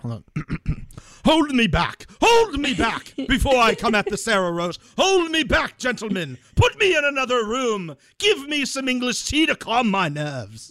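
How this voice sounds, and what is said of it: Imitated accent, mock agitated voice. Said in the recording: “I got to do it with the accent.”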